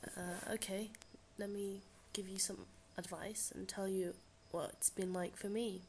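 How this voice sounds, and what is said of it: Congested voice from a cold. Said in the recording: “Sounds like I've got a cold, 'cause I do.”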